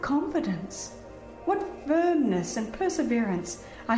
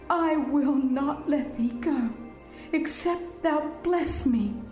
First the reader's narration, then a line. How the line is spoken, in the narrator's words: the patriarch exclaims